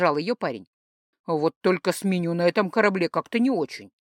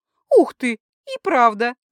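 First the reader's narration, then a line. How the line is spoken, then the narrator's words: Girl laughing. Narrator (Russian): засмеялась девушка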